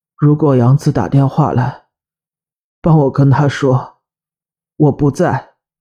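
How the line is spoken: Hoarse. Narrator (Chinese): 哥哥嘶哑的声音传来

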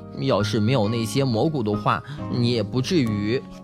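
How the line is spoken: Guilty muttering. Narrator (Chinese): 贝里奥知道是自己做错了事，嘀咕着

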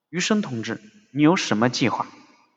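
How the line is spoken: Soft question. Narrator (Chinese): 张自忠轻声地问他

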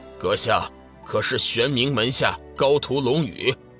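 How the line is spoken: Deep, grave question. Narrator (Chinese): 金莲鬼使沉声问道

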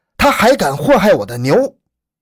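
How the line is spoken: Loud roar. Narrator (Chinese): 刘毅大吼一声

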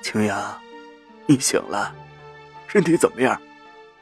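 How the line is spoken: Hoarse old voice. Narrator (Chinese): 老人的目光都是浑浊的，声音嘶哑着

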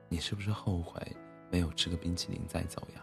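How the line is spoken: Dazed speech. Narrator (Chinese): 小白兔愣愣的 说

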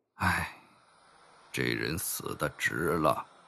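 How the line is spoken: Sighing. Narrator (Chinese): 叹息道

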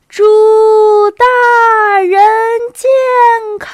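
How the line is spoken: Crowd shouting at full voice. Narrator (Chinese): 全团官兵扯开嗓子喊道

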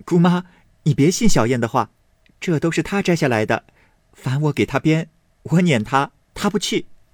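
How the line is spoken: Laughing. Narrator (Chinese): 婴儿笑道

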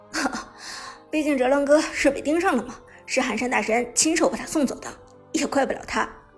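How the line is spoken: Laughing. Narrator (Chinese): 苏哲笑着说道

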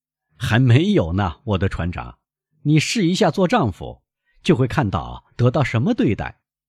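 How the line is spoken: Laughing. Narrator (Chinese): 卡德鲁斯笑着说

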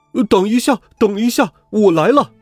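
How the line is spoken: Loud shouting gander. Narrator (Chinese): 尼尔斯家的雄鹅大声的喊道

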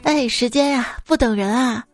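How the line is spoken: Sighing. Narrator (Chinese): 叹息了一声

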